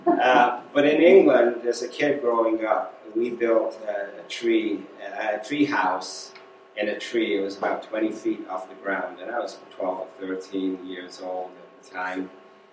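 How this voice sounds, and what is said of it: English accent. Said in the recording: “You can probably tell I was born in England, still have a bit of an accent... some people say you sound like you got off the boat yesterday”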